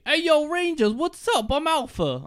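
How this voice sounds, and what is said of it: Put-on Brooklyn accent. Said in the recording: “Alpha gets like a Brooklyn accent.”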